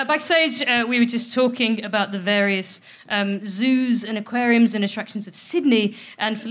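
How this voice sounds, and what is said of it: Usual voice. Nothing is said of it.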